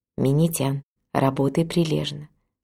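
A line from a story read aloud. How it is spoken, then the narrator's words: Mother whispering in ear. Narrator (Russian): мама Сакагучи прошептала на ухо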